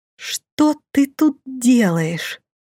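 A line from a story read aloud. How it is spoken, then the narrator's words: Measured, barely restrained hiss. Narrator (Russian): раздельно процедила едва сдерживаясь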